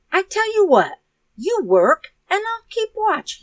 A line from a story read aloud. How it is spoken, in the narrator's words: he cried